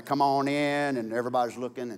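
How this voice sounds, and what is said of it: Put-on East Texas drawl. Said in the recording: “I don't know why Satan had East Texas drawl”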